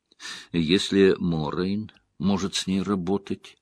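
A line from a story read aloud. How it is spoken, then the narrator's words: Low voice. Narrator (Russian): вполголоса сказала Найнев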